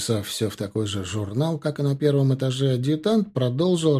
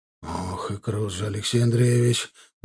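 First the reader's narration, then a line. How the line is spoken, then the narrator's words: Muttered. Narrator (Russian): пробормотал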